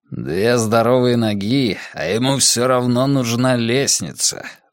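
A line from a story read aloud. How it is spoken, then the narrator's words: Grumbling. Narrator (Russian): ворчал Каз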